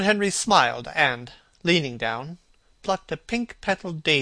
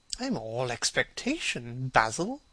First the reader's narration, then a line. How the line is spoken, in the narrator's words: murmured his companion